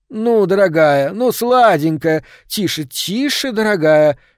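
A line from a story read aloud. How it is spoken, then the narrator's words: Soothing shout. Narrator (Russian): кричала Хельма на миссис Ванденберг, пытаясь ее успокоить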